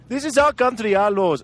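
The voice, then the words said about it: Failed African accent, drifts Indian. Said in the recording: “I can't do the accent. I always end up in India.”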